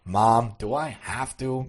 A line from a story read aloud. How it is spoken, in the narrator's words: grunted the boy